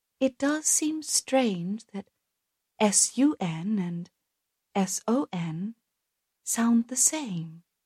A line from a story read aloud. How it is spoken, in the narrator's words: Viga spoke so softly that only he heard her say